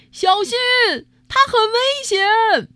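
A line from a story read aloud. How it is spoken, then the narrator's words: Loud shout. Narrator (Chinese): 有人大声叫了起来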